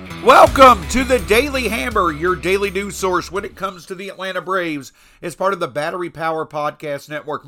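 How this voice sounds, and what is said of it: Strained, congested voice. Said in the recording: “Forgive my voice, still trying to get it back. These weather changes are not helpful to folks' sinuses, and I'm one of the ones right now suffering a bit.”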